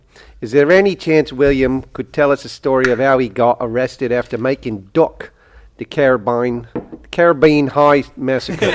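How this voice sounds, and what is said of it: Put-on Australian accent. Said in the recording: “can you read this in an Australian voice?”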